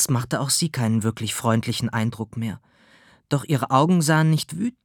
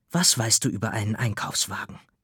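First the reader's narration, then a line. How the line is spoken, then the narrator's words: Hissing saleswoman. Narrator (German): Die Verkäuferin zischte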